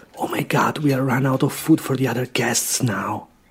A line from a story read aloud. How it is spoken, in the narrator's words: the host whisper in his wife's ear